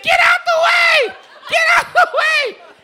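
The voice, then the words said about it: Screaming. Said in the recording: “I'm screaming”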